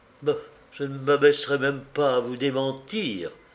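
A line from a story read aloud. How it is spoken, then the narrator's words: Hissing. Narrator (French): sifflait l'aventurière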